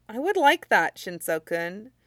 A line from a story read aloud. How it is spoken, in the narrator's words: Midoriya said as kindly as he could, smiling